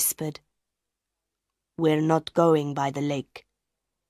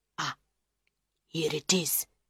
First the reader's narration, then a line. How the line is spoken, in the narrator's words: he whispered